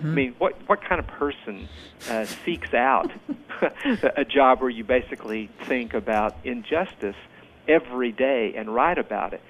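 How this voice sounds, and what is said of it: Southern American accent. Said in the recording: “People can hear my accent. I'm a Southerner myself”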